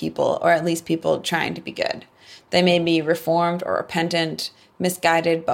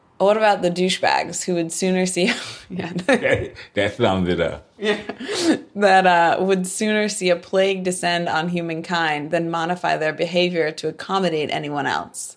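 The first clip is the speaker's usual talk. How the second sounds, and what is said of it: Bad put-on English accent. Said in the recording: “I can try this in my bad English accent.”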